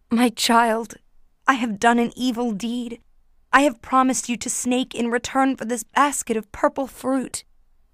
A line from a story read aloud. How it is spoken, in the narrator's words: cried out to her daughter